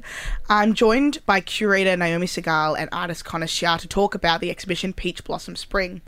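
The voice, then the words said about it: Voice sounds below par, congested. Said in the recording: “I've got a cold today, so my voice is not at its peak optimum.”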